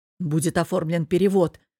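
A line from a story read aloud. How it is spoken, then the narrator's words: Boss, hurried and reassuring. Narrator (Russian): торопливо успокоил босс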